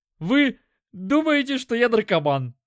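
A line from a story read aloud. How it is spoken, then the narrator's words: Forced out reluctantly. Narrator (Russian): выдавил он наконец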